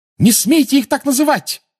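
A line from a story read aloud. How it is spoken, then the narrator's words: Furious shout. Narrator (Russian): разъяренно крикнула Гермиона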